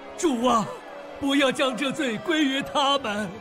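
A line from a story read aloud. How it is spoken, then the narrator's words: Loud shout. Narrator (Chinese): 大声喊着说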